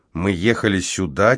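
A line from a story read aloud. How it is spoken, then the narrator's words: Quiet question. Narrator (Russian): тихонько спросила Кара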